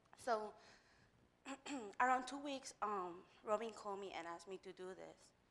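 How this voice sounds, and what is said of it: Strong foreign accent. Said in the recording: “When I get nervous, my accent goes very strong”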